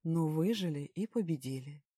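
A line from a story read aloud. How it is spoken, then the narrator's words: Calm reminder. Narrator (Russian): спокойным голосом напомнил великий ум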